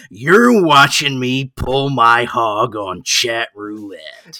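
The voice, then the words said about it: Creepy, leering announcer voice. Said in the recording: “ESPN sounds like a pervert ... that he sounds like a pervert ... saying shit in that voice, doing that character ... It's just Jack Nicholson, but ... Grosser.”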